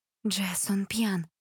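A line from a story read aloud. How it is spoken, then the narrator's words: Whispered. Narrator (Russian): шепнула Элизабет сестре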